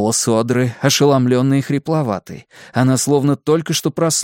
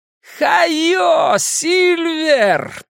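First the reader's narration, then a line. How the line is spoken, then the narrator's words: Shouted. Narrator (Russian): прокричал Билл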